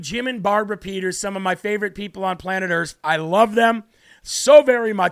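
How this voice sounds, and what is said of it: Hoarse, worn-out voice. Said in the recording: “my voice is shot right now”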